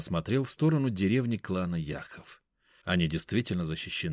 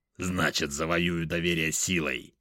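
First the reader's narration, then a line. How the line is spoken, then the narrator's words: Growling. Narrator (Russian): рыкнул Шинигами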